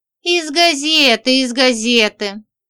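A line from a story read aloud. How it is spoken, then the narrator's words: Sighing. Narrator (Russian): вздохнула Женька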